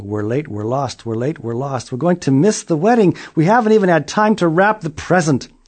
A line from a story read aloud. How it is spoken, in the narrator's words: a family came down the road yelling